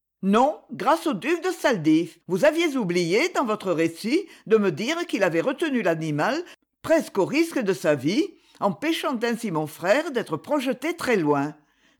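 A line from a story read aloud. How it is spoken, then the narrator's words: Curt, dry retort. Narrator (French): répliqua-t-elle sèchement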